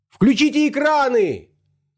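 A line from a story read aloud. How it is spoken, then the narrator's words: Shouting. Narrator (Russian): закричал кто-то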